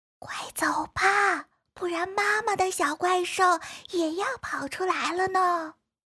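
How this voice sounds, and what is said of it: Quiet, hushed speaking voice. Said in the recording (Chinese): “小声说”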